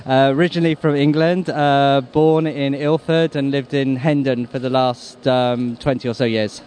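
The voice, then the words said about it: English accent. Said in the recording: “You can tell by the accent? ... Just about, yeah. ... originally you were from England”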